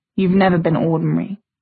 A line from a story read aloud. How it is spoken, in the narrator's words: Jay said, his voice very quiet